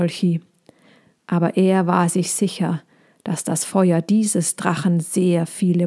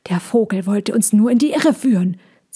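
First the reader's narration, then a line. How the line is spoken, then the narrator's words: Hissing into ear. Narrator (German): zischte er Molchi ins Ohr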